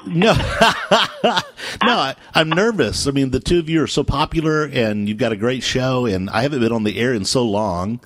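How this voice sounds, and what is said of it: Polished radio voice. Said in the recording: “you have the best radio voice ever”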